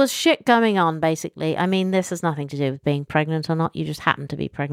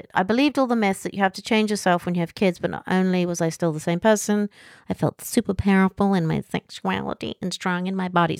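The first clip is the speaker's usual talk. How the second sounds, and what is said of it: Put-on American accent. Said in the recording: “I felt that had deserved an American accent.”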